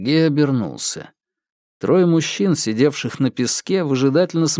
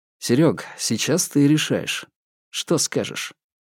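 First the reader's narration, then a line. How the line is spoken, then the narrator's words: Sighing. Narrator (Russian): Бабкин вздохнул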